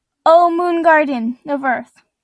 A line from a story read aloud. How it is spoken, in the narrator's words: shouted Lily